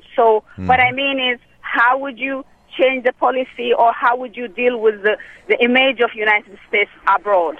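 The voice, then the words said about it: Slight foreign accent. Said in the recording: “I hear a little accent in your voice”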